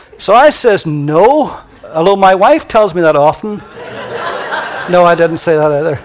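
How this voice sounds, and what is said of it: Irish accent. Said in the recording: “my lovely Irish accent”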